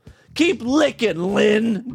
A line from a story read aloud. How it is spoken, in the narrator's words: Debbie said with a cackle